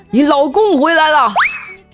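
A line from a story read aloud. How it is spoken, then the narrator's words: Furious full-throated yell. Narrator (Chinese): 我气疯了，于是对着楼上扯着嗓子大吼一声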